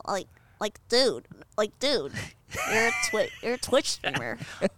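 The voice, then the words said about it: Imitates Bart Simpson cartoon voice. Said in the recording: “do it like Bart ... Okay, that works.”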